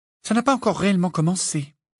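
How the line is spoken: Gloomy sigh. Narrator (French): soupira Hermione d'un air sombre

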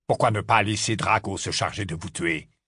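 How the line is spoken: Harsh tone. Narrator (French): lança Rogue d'un ton rude

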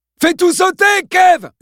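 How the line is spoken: Shouted into phone. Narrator (French): hurla-t-il dans l'appareil

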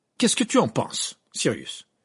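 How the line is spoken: Loud voice. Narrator (French): demanda Harry d'une voix forte pour que Ron et Hermione arrêtent de se disputer et écoutent

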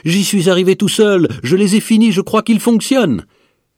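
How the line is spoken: Shouting. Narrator (French): cria-t-il

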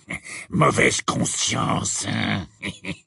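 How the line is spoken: Hissing. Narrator (French): dit-il d'une voix sifflante

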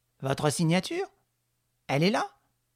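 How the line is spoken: Quick, brisk. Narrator (French): dit Honorine vivement

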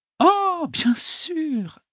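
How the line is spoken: Exclaimed. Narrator (French): s'écria-t-elle

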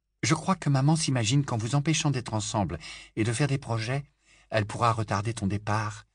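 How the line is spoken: Murmur. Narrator (French): murmura Ginny à Harry

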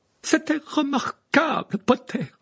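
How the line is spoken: Cry. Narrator (French): s'écria le professeur McGonagall

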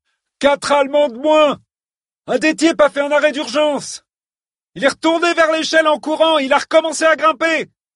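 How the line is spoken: Shouted. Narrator (French): nous cria JC

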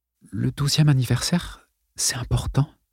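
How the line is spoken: Whisper. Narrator (French): chuchota-t-elle

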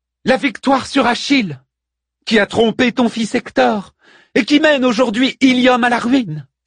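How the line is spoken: Exclaiming. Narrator (French): s'écria-t-elle

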